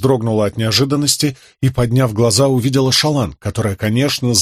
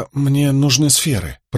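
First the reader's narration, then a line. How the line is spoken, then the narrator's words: Muttering. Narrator (Russian): пробормотала Шалан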